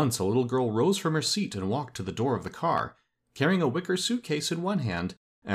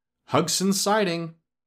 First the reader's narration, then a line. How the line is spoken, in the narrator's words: the conductor called out in a loud voice